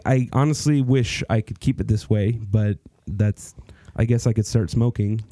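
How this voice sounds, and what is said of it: Deeper voice from illness. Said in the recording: “I have been sick. If you can tell, my voice is a little bit deeper ... Very soothing.”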